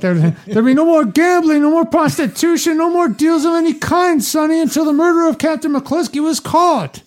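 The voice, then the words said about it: Impression of Tom Hagen. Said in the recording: “You were doing Tom Hagen.”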